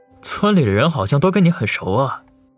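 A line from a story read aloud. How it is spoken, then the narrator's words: Low-voiced question. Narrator (Chinese): 王宇忍不住低声问道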